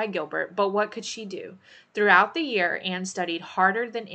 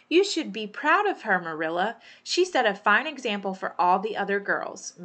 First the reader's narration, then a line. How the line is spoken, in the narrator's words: Miss Rachel said